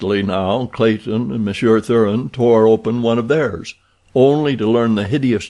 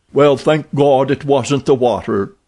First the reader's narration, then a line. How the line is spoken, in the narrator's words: cried Tompkins